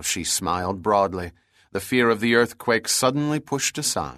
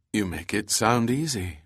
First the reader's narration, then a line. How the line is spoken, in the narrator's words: said dryly